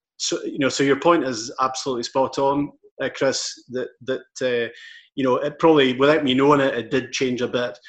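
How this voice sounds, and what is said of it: Softened Scottish Highland accent. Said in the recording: “you probably modify your accent a wee bit ... some people in the Highlands listen to me and they, oh, I hear your twang all the time ... the accent hasn't completely gone. I've probably just modified it a bit.”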